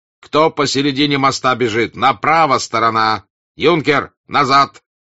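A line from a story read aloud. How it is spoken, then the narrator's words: Angry shout. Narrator (Russian): сердито закричал он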